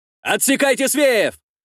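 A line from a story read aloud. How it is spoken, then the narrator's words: Shouted. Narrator (Russian): прокричал сотник Звяга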